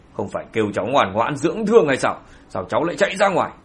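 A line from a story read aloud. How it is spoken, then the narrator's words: Sudden scolding shout. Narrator (Vietnamese): Hoàng Hạc Phi nhìn thấy sự xuất hiện của thanh niên lập tức quát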